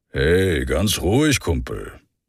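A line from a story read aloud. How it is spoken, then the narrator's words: Deep, gruff, carefree voice. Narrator (German): Seine Stimme war tief und brummig und klang gänzlich unbeschwert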